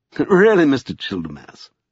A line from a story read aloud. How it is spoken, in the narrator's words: said Lascelles with a sigh